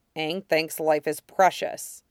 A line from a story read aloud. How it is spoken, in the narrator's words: Zuko muttered